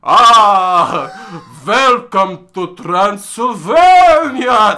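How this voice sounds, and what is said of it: Exaggerated Dracula-style vampire accent. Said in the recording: “His Dracula accent, his Dracent was so good. ... Give me an impression.”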